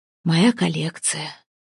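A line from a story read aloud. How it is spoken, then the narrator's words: Quiet, sad. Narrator (Russian): тихо произнес он, и в его голосе звучала не гордость, а грусть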